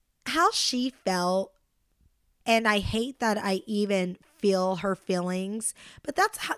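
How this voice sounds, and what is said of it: Usual voice. Nothing is said of it.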